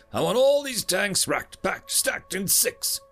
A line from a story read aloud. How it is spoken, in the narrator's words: he yelled